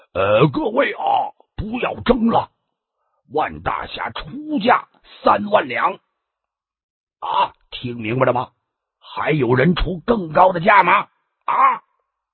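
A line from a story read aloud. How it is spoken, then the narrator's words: Loud announcement. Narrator (Chinese): 裘总管立刻大声的宣布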